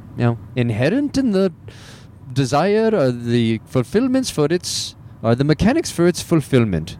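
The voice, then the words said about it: Weak Indian-accent Deepak Chopra impression. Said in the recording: “I align more with uh, Deepak Chopra ... See, can't even do an Indian accent.”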